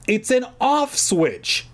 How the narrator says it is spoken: I shouted to her

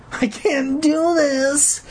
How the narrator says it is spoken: he wailed like a little bitch

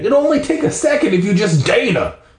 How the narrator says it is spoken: Dad yelled

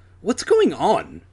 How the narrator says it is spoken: Adam demanded impatiently

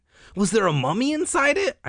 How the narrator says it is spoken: I asked eagerly

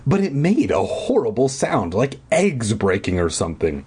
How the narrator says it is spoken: I exclaimed

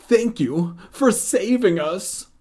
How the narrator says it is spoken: Uncle Colin exclaimed

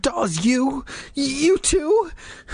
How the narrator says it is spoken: I cried, so disappointed, so confused, so scared

